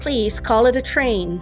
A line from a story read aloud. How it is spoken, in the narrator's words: said the peacock